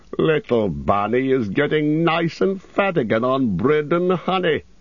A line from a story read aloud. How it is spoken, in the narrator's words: he chuckled